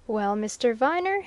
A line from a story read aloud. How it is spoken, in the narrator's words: he said, with a triumphant laugh